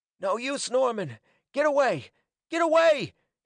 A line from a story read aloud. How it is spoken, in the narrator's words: he cried hoarsely, frenziedly